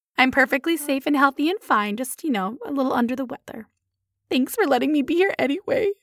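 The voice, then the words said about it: Hoarse, laryngitis-like voice. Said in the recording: “You may notice my voice sounds a little weird ... she had kind of like laryngitis”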